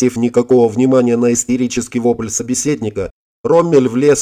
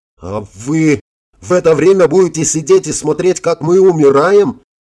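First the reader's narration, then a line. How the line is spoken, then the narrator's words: Uncontrolled angry yell. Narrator (Russian): не сдержавшись, заорал О'Хара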